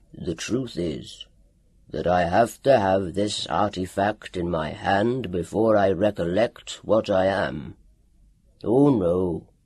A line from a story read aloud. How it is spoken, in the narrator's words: growled